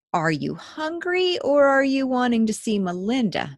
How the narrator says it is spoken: Matthew replied

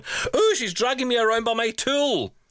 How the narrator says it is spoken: consumed by a spirit of mischievousness, I chose in the middle of a crowded store to loudly declare

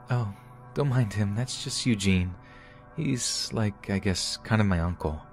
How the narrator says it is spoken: she said in her soft voice

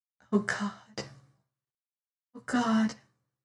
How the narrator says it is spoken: she whispered

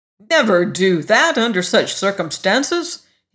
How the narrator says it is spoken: he snapped

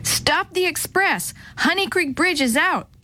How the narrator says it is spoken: Kate shouted when she finally burst into the station house

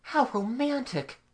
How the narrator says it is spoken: Mamie exclaimed

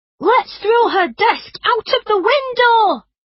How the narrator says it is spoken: Tom jumped up from his chair and yelled

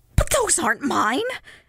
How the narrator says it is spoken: he laughed unsteadily

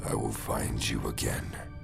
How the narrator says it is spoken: spoke in a raspy voice

